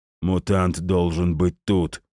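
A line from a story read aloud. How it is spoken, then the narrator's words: Hoarse declaration. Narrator (Russian): хриплым голосом заявил один из мужчин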